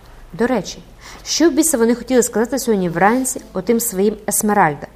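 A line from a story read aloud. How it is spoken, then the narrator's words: Exclamation. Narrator (Ukrainian): вигукнув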